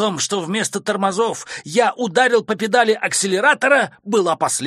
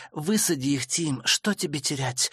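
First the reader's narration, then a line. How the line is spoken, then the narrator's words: Mother's ear whisper. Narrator (Russian): Мама шепнула мне в ухо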